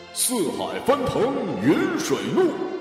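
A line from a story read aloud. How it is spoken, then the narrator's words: Cold. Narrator (Chinese): 第一个小伙子冷声道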